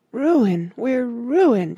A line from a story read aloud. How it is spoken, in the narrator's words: she sobbed